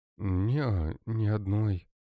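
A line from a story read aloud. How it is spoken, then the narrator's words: Sad. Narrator (Russian): грустно ответила Лера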